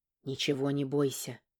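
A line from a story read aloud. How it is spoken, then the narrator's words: Tender whisper. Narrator (Russian): прошептал мне Вебрант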